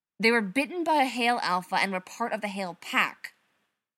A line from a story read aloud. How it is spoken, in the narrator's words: she snapped